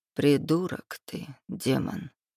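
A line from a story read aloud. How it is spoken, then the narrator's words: Muttering. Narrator (Russian): пробормотал Андрей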